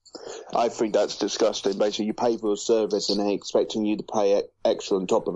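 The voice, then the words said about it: British English accent. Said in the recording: “I'm from the UK, if you can't tell by my accent”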